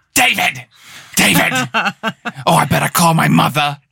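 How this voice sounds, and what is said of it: Imitates another person's voice. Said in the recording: “my best impersonation ... It's still pretty close ... It is really good.”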